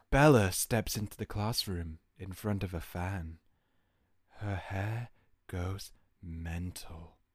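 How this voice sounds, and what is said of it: Put-on sexy voice. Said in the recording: “I think I need to debut my sexy voice.”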